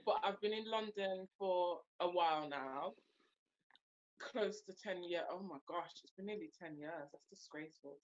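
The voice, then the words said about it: Slight Birmingham accent. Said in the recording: “I'm from Birmingham. You might hear the slight accent. Um, but I'm from Brum.”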